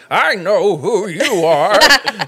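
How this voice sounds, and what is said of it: Subtle impression of an older man. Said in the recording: “your grandpa impression too, there, because it was like it was subtle enough ... it was also enough of ... that it was a very good impression.”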